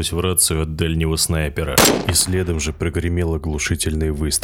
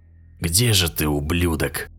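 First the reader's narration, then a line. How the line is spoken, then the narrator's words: Through gritted teeth. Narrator (Russian): цедил Карбид сквозь зубы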